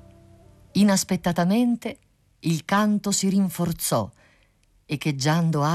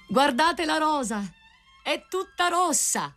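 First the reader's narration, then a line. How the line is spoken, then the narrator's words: Cry. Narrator (Italian): il grido del rosaio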